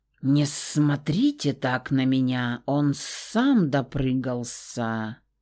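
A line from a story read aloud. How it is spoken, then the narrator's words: Unrepentant hiss. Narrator (Russian): Прошипел змей, ничуть не сожалеющий о содеянном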